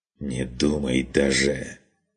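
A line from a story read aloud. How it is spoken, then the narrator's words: Hissed. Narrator (Russian): прошипел тот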